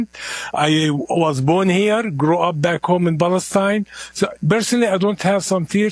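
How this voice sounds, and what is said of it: Heavy accent. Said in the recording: “I have a heavy accent.”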